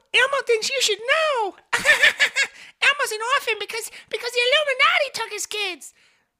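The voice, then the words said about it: Elmo character voice. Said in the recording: “a great Elmo impersonation”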